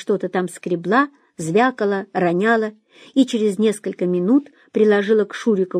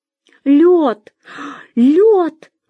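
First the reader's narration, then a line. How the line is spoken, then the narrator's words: Young woman exclaiming. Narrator (Russian): воскликнула девица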